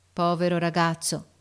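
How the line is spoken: Sad repetition. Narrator (Italian): ripeté tristemente l'ufficiale

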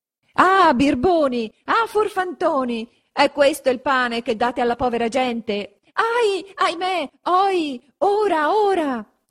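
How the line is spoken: Shouting from below. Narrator (Italian): s'urlava di giù

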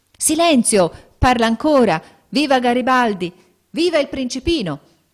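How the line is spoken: Shouting. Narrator (Italian): gridando

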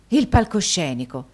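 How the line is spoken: Forceful exclamation. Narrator (Italian): esclamò Nicola quasi con la stessa forza

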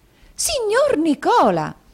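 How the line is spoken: Surprised exclamation. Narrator (Italian): esclamò la signorina Lacrivi con un balzo di sorpresa

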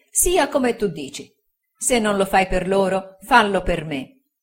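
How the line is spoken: Plain. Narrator (Italian): disse la moglie

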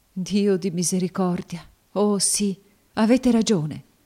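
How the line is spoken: Sobbing exclamation. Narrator (Italian): esclamò fra i singhiozzi

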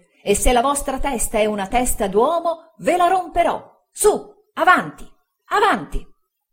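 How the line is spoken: Comically shouting. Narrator (Italian): ridicolo del signor Micawber … gridava

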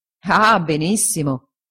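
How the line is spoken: Laughing. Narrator (Italian): disse Traddles ridendo

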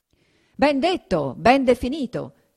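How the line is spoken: Diners shouting in unison. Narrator (Italian): gridarono a una voce i commensali

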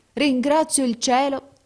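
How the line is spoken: Exclaiming. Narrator (Italian): esclamò

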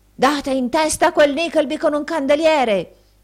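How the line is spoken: Shout through keyhole. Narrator (Italian): gridò il signor Squeers per il buco della chiave

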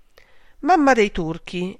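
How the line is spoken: Exclaimed. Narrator (Italian): esclamò Fanny

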